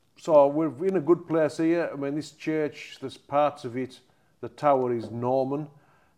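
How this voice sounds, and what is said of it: Cumbrian accent, toned down. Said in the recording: “the Cumbrian dialect ... It's very strong accent. I've got my Sunder voice on here, otherwise people in general can't hardly understand me. Because it is a really strong accent.”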